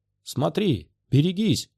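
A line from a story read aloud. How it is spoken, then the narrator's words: Shouted. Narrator (Russian): крикнул Оби-Ван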